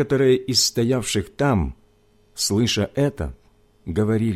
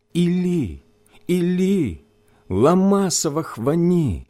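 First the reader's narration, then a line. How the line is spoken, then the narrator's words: Loud cry. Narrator (Russian): возопил Иисус громким голосом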